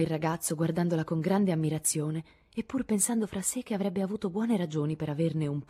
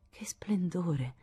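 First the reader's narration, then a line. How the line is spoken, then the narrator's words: Contented sigh. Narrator (Italian): sospirò Joe con aria di intensa soddisfazione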